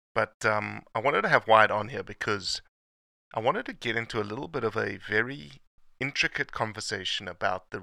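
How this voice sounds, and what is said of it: Rough, sick-sounding voice. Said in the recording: “apologize for my voice. ... I think I'm getting sick.”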